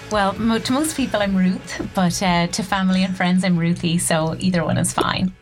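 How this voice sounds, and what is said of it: Irish accent. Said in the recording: “In her lovely Irish accent”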